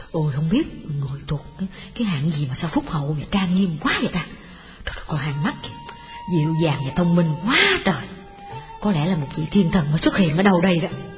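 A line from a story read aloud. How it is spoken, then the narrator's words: Crowd whispering. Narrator (Vietnamese): họ thì thầm với nhau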